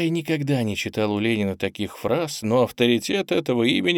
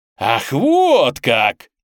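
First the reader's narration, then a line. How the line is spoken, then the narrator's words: Triumphant exclamation. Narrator (Russian): торжествующе воскликнул комсомолец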